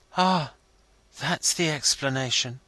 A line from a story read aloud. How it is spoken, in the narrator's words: he quietly remarked